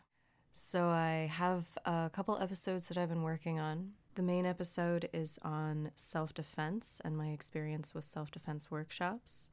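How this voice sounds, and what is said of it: Rough, honking sick voice. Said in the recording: “I'm just getting over the flu. So lately, my voice has sounded like a flock of Canadian geese fighting”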